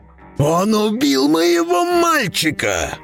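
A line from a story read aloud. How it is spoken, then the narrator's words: Roaring. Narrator (Russian): взревел Бреннер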